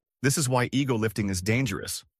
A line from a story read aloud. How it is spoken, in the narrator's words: one said